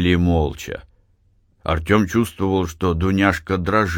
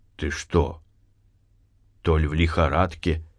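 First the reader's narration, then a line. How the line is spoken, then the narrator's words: Quiet question. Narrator (Russian): спросил тихо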